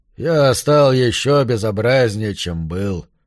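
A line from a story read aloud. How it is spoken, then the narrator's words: Grumbling. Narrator (Russian): ворчал Марш, когда ему случалось посмотреться в зеркало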